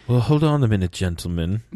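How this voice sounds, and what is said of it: Poor imitation of another person's voice. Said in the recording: “that regal aha accent... That was terrible.”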